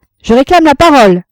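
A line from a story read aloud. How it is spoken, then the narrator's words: Shouted. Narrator (French): cria Frédéric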